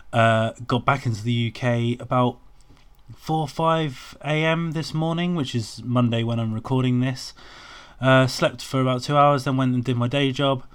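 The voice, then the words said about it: Croaky, tired voice. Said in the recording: “I am absolutely shattered. You might be able to hear by my voice, I'm a little bit sort of croaky and exhausted.”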